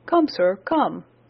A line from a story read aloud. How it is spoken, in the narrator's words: cried Franklin